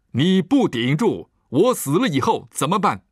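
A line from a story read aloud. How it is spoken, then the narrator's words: Roaring. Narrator (Chinese): 他吼道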